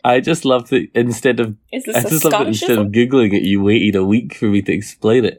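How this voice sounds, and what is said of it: Speaker's own non-American accent. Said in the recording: “your accent ... Our American listeners would say otherwise.”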